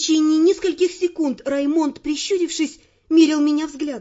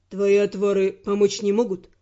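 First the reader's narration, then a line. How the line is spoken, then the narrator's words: Gloomy question. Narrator (Russian): мрачно спросил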